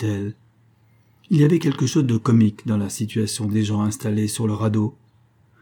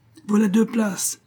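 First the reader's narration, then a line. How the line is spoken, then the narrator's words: Exclaimed. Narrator (French): s'écria-t-il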